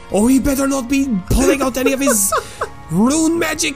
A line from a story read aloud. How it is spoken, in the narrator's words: Kareen shout from below deck